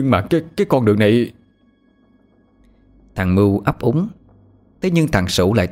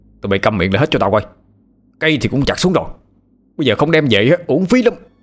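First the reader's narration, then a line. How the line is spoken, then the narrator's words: Shouting. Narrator (Vietnamese): thằng Sửu quát lên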